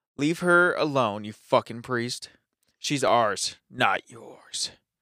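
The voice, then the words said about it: Spooky demonic voice. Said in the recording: “spooky voice ... Spooky.”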